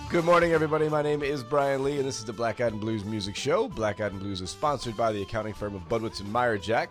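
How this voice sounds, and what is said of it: Rough, under-the-weather voice. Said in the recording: “You sound like you're a little under the weather. ... My voice has been a mess for the last two days.”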